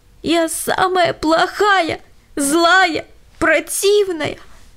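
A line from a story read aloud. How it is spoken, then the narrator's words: Sobbing. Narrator (Russian): всхлипывала Лена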